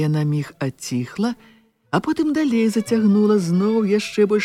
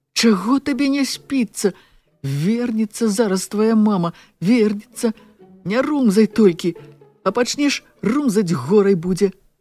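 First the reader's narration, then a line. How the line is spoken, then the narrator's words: Displeased question. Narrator (Belarusian): Янаць спытаў незадаволена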